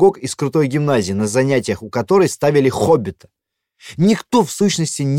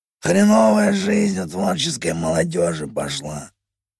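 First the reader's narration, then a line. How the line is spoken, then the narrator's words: Hoarse, in character. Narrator (Russian): Сипло, не выходя из образа, ответил Серый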